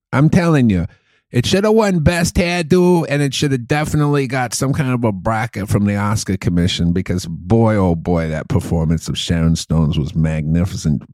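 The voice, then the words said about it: Put-on Boston accent, movie critic. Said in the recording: “I could do that accent forever ... It's like Boston movie critic ... while I was doing that impression”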